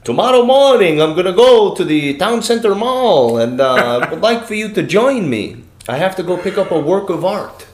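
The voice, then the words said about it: Put-on Russian accent. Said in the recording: “In his Russian accent”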